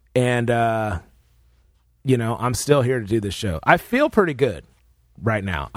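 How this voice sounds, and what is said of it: Sick, rough-sounding voice. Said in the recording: “my voice is going to sound a little messed up... I'm coming in sick”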